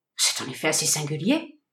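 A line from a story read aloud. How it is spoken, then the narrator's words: Worried murmur. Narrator (French): murmura le détective devenu soucieux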